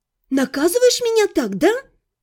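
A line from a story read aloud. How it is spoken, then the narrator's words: Furious hiss, young woman. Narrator (Russian): Яростно зашипела девушка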